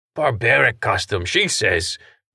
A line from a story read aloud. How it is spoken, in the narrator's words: Pesh muttered